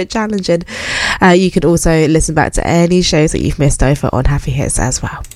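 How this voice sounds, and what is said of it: Strained voice with a cold. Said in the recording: “my voice is going. ... I've got a bit of a cold”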